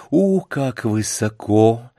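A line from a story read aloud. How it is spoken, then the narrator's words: Weak, trembling voice. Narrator (Russian): произнесла она ослабевшим и вздрагивающим голосом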